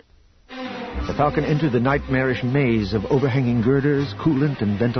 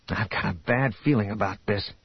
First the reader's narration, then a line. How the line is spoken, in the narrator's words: Han mumbled